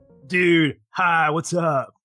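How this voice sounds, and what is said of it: Surfer-guy character voice. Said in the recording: “that your surfer impression? ... It's an attempt at my surfer guy, not an impression, just me being a surfer.”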